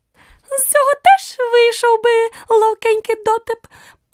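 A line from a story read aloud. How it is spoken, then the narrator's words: Tiny squeaky voice near ear. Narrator (Ukrainian): пропищав тонісінький голосочок біля самого її вуха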